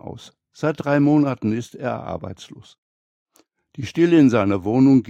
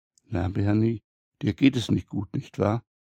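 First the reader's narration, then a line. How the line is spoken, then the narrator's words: Waitress whispering. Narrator (German): Clara, die Bedienung, flüstert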